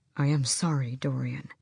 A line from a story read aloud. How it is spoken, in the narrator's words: Kaol said softly